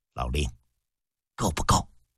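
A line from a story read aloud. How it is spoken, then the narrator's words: Quiet question. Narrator (Chinese): 嬴政低声问了一句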